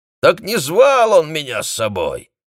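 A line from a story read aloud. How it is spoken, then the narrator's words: Hoarse smoky thunderous laugh. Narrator (Russian): Хриплый прокуренный смех водителя напомнил раскаты грома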